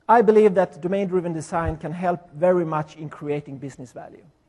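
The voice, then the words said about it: Swedish accent. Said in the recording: “my Swedish accent”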